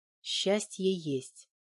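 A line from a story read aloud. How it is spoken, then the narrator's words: Quiet. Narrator (Russian): тихо произнесла Валька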